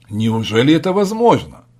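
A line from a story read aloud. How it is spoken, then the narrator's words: Puzzled exclamation. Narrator (Russian): воскликнул озадаченный сенатор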